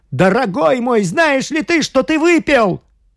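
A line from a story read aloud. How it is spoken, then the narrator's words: Piercing, frightened scream. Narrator (Russian): Август побледнел, пронзительно закричал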